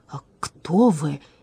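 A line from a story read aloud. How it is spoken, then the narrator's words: Incredulous breathless gasp. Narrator (Russian): не веря своим глазам, выдохнул дворецкий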